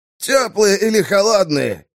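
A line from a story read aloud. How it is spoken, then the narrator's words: Shouting. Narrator (Russian): крикнул Вармет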